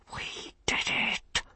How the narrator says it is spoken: he whispered

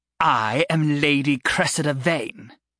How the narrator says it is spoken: she sneered

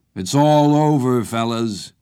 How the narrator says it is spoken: Carter taunted

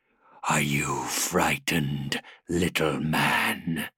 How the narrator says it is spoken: the renegade hissed in a voice that was chillingly quiet

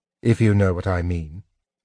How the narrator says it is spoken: Tanis said softly

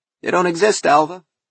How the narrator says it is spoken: said Wynand cheerfully

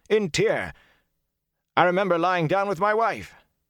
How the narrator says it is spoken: a naked man nearly screamed

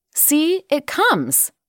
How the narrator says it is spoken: cried Curly

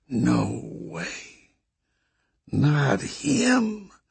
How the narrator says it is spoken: Nick murmured

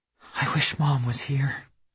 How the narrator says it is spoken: she whispered

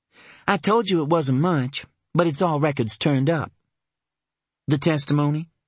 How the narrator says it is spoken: Her voice hardened

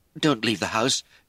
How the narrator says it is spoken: Jay pleaded

